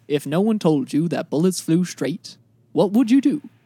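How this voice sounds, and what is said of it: Imitates another person's voice. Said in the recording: “going to do a Morgan Freeman impression ... That's not bad.”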